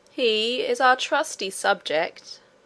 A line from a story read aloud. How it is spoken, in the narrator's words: said the king himself, in a slow and stately voice